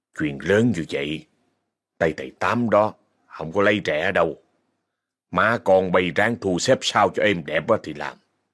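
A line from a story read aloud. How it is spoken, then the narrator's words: Cold. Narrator (Vietnamese): Ông Sáu đưa xấp tiền cho bà Hồng rồi lạnh lùng nói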